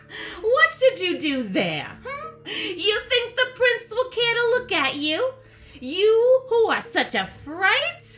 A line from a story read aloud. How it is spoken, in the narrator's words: laughed at her and said